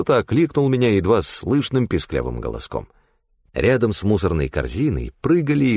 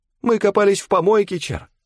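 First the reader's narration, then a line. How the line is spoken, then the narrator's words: Small child squeaking. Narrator (Russian): пискнул малыш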